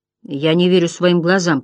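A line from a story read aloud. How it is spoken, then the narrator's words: Grumbling. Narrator (Russian): проворчал Хидерн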